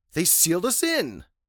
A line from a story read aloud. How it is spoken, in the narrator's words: I exclaim to Dr